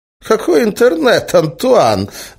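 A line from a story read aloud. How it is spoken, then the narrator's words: Laughing. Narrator (Russian): засмеялся Эразм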